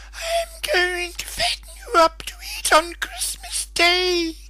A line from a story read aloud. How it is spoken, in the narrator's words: screeched the traditional hideous witch